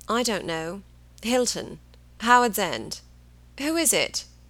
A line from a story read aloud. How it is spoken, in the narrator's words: He said drowsily